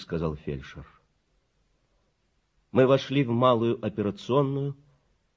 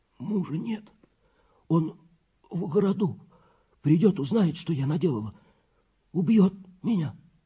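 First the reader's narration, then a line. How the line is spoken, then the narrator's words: Hoarse voice. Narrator (Russian): хриплый голос, который говорил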